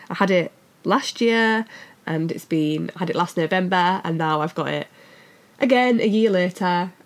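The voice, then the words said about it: Sick, mangled-sounding voice. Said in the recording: “I clearly am ill again ... my voice sounds a bit mangled”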